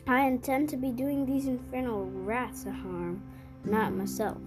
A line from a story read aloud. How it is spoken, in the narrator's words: she said